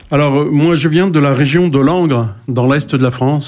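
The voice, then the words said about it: Sharp non-Parisian French accent. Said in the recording (French): “Il a un accent un peu pointu, pas parisien”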